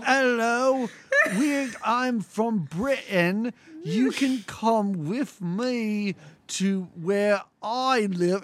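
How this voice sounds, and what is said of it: Exaggerated bad British accent. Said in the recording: “this is a terrible British accent, too, because he's like, ... oh, horrible. ... this is awful”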